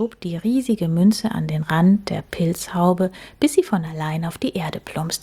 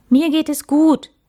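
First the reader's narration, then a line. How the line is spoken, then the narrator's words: Calling out. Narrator (German): rief Max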